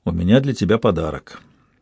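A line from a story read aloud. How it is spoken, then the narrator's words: Quiet. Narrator (Russian): тихо сказал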